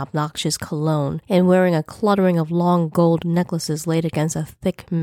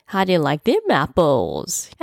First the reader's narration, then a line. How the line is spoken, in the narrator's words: he cackled like a fool